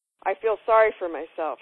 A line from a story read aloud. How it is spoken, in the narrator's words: answered